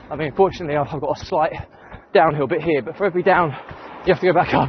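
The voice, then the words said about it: Out of breath while running. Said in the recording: “I'm out of breath.”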